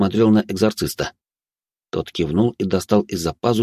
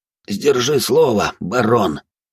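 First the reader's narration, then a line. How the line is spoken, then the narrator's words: Hoarse. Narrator (Russian): хрипло произнес Навар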